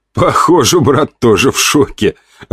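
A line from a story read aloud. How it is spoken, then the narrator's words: Loud laughter. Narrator (Russian): расхохотался я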